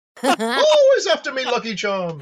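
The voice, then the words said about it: Put-on Irish accent, high-to-low pitch. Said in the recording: “This is how you do an Irish accent. You start up high and then you go down low.”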